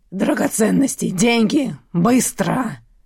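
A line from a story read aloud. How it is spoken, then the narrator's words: Growled. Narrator (Russian): прорычал Берский другим оборотникам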